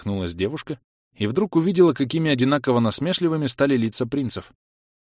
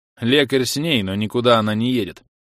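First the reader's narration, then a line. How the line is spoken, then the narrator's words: Angry curt. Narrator (Russian): сердито отрезал принц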